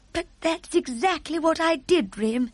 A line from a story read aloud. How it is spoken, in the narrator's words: the Queen cried out